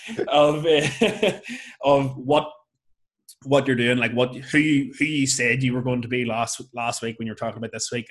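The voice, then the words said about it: Northern Irish Lurgan accent. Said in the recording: “that's my Lurgan accent coming out”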